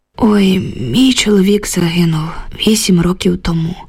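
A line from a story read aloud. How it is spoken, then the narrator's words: Heavy sigh. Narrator (Ukrainian): важко зітхнула Люба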